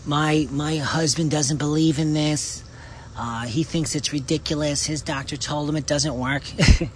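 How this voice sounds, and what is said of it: Imitates another person's voice. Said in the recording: “You like my imitation there?”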